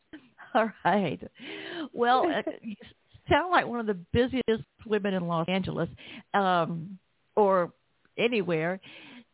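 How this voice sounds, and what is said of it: Southern American accent. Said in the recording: “my Southern accent ... Your Southern accent is just charming”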